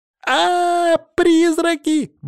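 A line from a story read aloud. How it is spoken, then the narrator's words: Shrill squeal. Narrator (Russian): взвизгнула Полина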